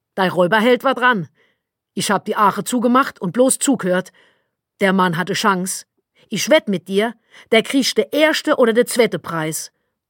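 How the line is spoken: Called out. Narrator (German): rief Tante Martel

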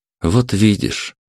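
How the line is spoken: Soft concluding tone. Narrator (Russian): мягко подвел черту Александр

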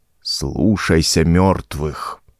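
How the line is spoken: Sepulchral commanding voice. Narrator (Russian): приказал он загробным голосом

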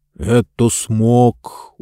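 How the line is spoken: Sullen grumble. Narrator (Russian): угрюмо пробурчал Джонс

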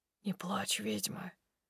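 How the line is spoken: Barely audible whisper. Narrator (Russian): шепчет едва слышно

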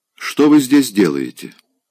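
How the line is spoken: Stern question. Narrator (Russian): спросила она строго

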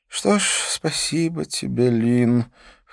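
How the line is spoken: Weary repeated sigh. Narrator (Russian): в который раз вздохнул Дидье

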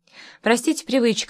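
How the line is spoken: Said with a chuckle. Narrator (Russian): сказал и снова хохотнул

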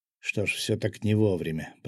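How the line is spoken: Muttering. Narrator (Russian): пробормотал я

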